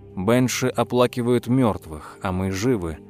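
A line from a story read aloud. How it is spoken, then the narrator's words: Dry reply. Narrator (Russian): сухо отозвался граф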